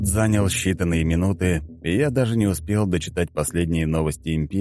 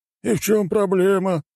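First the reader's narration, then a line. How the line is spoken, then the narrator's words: Chuckle. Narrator (Russian): хохотнул советник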